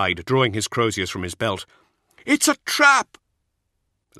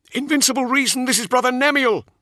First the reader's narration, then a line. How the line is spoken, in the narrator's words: he cried